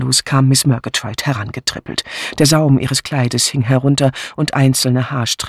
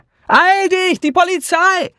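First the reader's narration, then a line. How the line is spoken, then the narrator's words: Called out. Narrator (German): rief Miss Hinchliffe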